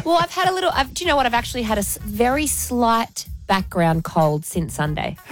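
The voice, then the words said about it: Slightly hoarse voice. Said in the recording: “You're a bit hoarse.”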